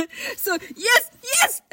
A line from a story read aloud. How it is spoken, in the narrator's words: exclaimed Passepartout